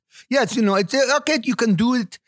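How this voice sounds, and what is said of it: Ambiguous mixed foreign accent. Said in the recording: “as you can tell from my accent, it's fairly ambiguous ... I heard some Indian and then some Russian and then, Borat, I think”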